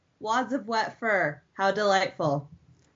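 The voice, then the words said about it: Flat, deadpan character voice. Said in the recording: “I'll try to be as flat as possible, though.”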